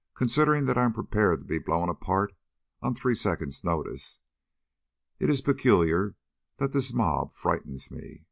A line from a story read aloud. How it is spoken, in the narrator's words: said Jameson dryly